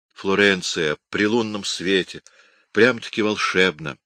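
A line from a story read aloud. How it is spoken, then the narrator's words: Sighing. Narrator (Russian): вздохнула Контессина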